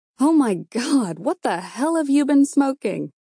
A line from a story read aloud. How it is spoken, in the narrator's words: I choked back my laughter